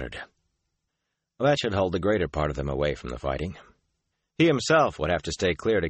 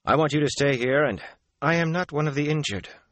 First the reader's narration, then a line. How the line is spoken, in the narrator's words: she said stiffly